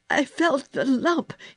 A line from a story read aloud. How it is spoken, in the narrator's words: choked